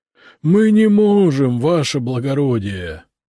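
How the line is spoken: Ghostly moaning. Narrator (Russian): застонали призраки

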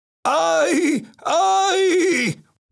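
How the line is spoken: Shouting. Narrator (Spanish): gritaba Don Quijote

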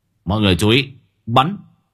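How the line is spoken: Steely commanding shout. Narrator (Vietnamese): Giọng của ông Long đanh thép quát lên một tiếng

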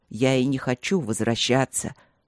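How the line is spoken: Snapping retort. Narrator (Russian): огрызнулся он

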